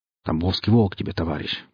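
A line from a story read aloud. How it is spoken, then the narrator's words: Grumbled. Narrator (Russian): пробурчал саранча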